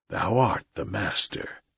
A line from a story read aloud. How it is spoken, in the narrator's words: said Bagheera in an undertone